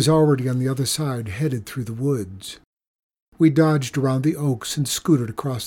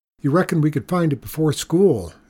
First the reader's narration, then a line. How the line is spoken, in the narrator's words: asked Cotton